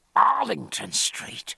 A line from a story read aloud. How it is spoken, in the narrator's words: said Jack in a hoarse whisper